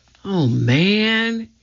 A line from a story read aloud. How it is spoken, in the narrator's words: He breathed